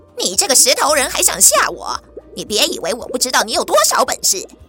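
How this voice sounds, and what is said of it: Fierce, menacing character voice. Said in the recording (Chinese): “恶狠狠的声音”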